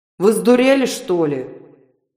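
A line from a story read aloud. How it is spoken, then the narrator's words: Thunderous bass question. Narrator (Russian): громовым басом спросила неведомая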